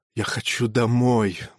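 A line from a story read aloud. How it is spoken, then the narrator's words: Mutter. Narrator (Russian): бормотал он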